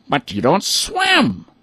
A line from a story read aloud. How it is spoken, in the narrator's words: the ducks exclaimed